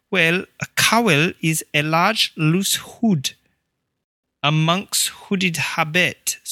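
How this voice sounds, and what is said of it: Poor put-on Welsh accent, Irish-sounding. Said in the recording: “Maybe I'll switch my accent over to Welsh for you... It's like Irish Welsh. This is terrible.”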